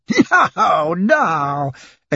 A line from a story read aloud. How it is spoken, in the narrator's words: exclaimed Passepartout in a joyful burst of laughter